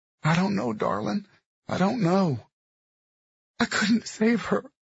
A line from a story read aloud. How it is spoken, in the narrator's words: she said, and her body convulsed with a sob